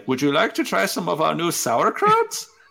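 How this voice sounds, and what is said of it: Put-on German accent. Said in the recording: “She does a German accent”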